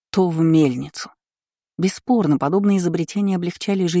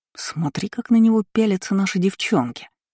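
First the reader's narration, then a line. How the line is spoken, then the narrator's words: Slightly hurt whisper. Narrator (Russian): шепнул Кайл, как ей показалось немного обиженно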